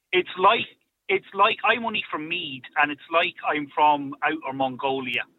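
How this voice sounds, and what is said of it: North Dublin Irish accent. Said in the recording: “I live in North Dublin, very North Dublin, and my accent ... The accent is a huge topic of conversation”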